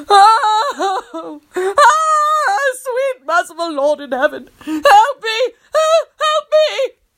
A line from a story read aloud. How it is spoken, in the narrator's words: Tony wailed